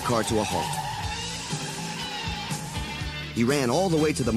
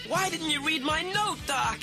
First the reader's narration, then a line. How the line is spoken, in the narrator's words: Marty cried to the body of his friend